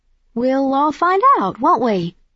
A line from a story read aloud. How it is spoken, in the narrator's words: I said brightly